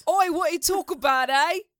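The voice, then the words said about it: Put-on British accent, not convincing. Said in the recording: “have you heard my British accent? This is way more accurate ... I think your Queens accent is better than your British accent”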